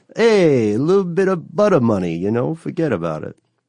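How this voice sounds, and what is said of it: Bad mafia-style Brooklyn/Jersey accent. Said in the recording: “that sounds like a mafia term ... That's not my best ... that terrible accent ... like a Brooklyn thing? ... Yeah, like a – you know, forget about it. Brooklyn, Jersey.”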